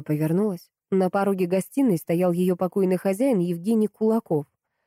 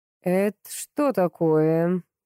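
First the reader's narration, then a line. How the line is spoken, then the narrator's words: Growl. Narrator (Russian): прорычал Евгений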